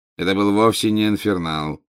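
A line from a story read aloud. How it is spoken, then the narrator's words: Bored, interrupting. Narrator (Russian): скучающим голосом прервал его Снег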